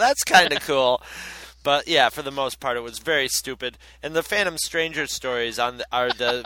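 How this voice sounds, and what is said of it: Usual voice. Nothing is said of it.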